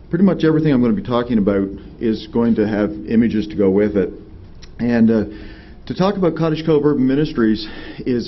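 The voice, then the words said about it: Canadian accent. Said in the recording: “you'll be curious because of my accent as I talk, I'm not from Nashville originally. I'm actually from New Brunswick, Canada. And so every time I say outer house or things of that sort, it'll give me away.”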